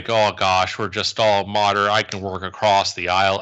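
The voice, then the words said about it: Attempted Minnesota accent. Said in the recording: “I'm trying to do the Minnesota accent, and I just can't.”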